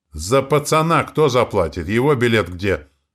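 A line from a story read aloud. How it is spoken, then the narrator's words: Conductor shouting after. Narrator (Russian): крикнула проводница нам вслед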